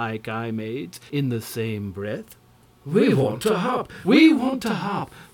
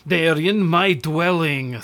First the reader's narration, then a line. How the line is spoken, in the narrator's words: snapped Kwytoffl